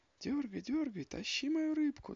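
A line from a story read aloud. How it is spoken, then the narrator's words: Shouting. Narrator (Russian): закричала лиса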